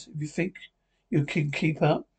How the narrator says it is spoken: Dagon chuckles

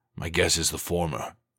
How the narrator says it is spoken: he said dryly

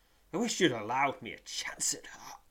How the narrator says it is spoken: he gasps

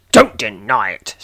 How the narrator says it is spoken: snapped the man in the painting

